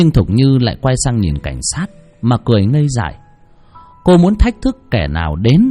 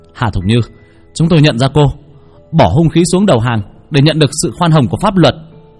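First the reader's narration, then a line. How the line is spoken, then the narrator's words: Police shouting. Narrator (Vietnamese): Cảnh sát quát lên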